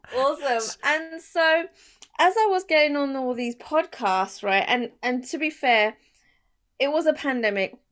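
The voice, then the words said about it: British accent. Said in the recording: “that wonderful British accent”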